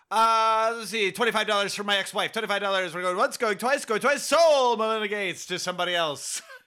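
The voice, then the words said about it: Fast auctioneer patter voice. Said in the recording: “the little voice ... the auctioneer voice”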